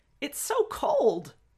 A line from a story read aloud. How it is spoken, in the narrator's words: at the first touch on their feet, Wei Ying yelped